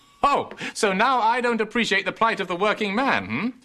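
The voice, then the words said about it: English accent. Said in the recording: “what part of England do you come from? You have such a gorgeous accent.”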